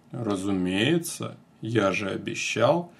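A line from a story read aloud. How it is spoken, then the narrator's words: Deep bass voice. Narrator (Russian): густым басом произнес Мерлин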